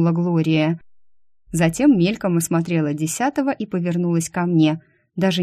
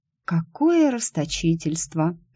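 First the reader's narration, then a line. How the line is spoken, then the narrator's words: Whispered. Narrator (Russian): прошептала я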